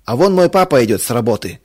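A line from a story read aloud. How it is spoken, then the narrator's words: Shouted. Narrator (Russian): крикнул Толик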